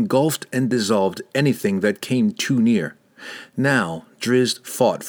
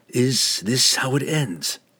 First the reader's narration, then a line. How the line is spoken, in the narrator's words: he whispered aloud